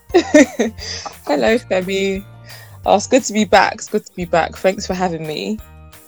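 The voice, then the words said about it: British accent. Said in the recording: “she comes with a British accent. So big shout out to the British accent.”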